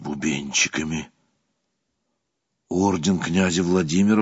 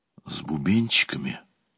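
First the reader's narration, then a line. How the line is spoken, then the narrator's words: Whisper. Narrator (Russian): прошептал я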